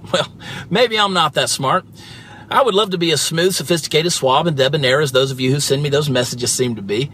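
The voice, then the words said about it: Southern US accent. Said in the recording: “your southern accent ... a southern dialect”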